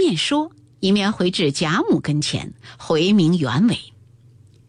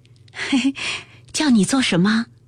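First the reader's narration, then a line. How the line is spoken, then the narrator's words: Smiling question. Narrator (Chinese): 袭人堆下笑来问道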